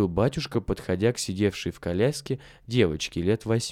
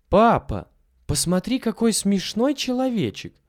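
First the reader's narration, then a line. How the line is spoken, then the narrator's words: Sudden excited child's exclamation. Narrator (Russian): вдруг воскликнула девочка из коляски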